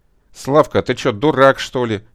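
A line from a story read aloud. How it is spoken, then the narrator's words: Angry shouting. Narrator (Russian): сердито закричал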